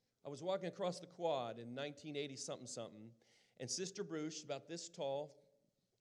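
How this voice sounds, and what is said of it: Usual voice. Nothing is said of it.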